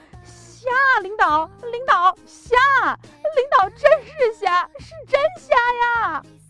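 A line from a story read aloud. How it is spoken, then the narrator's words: Stunned, hurried loud explanation. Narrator (Chinese): 我也愣了呀，我赶紧大声的解释道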